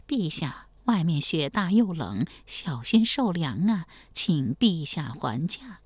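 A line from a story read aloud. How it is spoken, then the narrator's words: Quiet coaxing. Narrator (Chinese): 王继恩小声劝道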